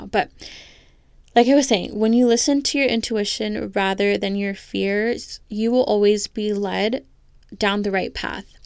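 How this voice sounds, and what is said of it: Voice giving out, losing voice. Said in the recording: “I'm like losing my voice right now”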